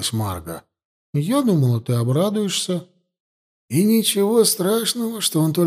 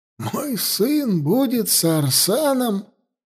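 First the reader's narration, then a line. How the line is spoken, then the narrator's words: Desperate laughter. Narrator (Russian): Хаста разразился отчаянным хохотом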